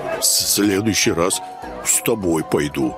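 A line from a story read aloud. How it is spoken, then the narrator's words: Displeased grumble. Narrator (Russian): пробурчал Громила недовольно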